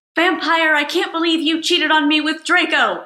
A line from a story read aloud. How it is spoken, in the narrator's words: I shouted at him